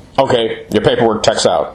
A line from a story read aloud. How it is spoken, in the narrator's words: the thought said